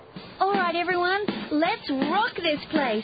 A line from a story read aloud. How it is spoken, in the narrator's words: shouted Molly